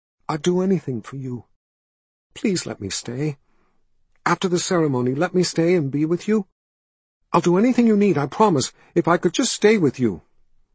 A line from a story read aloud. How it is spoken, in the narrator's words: he whispered